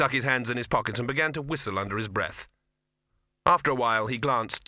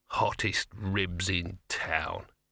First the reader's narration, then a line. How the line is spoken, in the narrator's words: he muttered